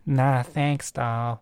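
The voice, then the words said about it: Put-on American Southern accent. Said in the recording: “I also love this, like, the Southern... Is that Southern? You know, that sort of accent.”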